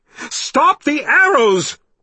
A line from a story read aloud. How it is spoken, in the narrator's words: she yelled angrily at the birdman